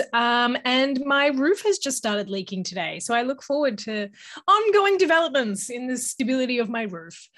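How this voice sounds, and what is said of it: Australian accent. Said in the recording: “I am Australian, if you can't tell from my voice.”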